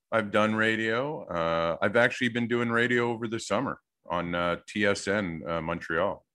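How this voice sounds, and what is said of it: Polished radio announcer voice. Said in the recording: “you by far have the most radio voice”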